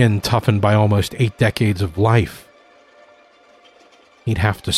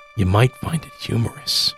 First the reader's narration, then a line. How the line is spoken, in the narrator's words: Ronald whispered into the old man's ear